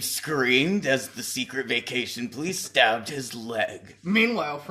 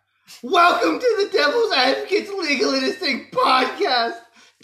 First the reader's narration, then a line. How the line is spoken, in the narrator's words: Dave screamed as the secret vacation police stabbed his legs